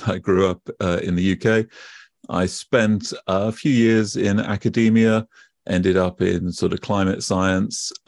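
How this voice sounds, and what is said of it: British accent. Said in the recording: “you can probably tell from my accent already, I am British”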